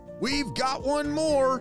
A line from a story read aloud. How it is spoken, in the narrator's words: Sunny shouted